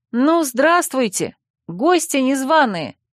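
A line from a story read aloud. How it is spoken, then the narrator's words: Shouting. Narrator (Russian): крикнула я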